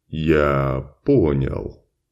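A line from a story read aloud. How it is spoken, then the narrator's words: Slow. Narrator (Russian): медленно проговорил господин Шарль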